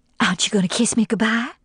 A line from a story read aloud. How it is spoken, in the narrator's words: She whispered, mindful of the ears of the house